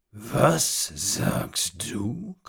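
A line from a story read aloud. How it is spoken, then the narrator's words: Old man growling. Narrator (German): knurrte der alte Mann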